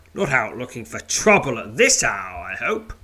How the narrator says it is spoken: roars Scarbid, smiling

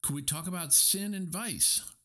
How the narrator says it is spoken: pleaded Lydia Lacey

